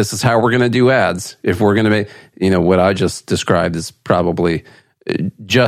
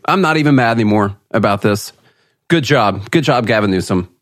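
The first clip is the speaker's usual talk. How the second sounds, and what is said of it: Sarcastic praise. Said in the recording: “that was being sarcastic about the good job part”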